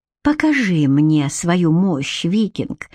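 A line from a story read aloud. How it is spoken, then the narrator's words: Breathy exhale. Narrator (Russian): выдохнула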